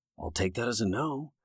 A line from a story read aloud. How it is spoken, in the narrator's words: Jake said petulantly under his breath